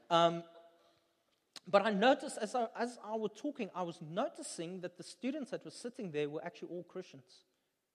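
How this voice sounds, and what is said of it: Afrikaans-accented English. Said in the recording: “my Afrikaans accent”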